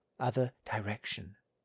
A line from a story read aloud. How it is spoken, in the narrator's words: Holcomb said quietly